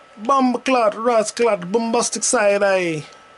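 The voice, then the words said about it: Put-on Jamaican accent. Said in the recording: “why am I doing Jamaican accent?”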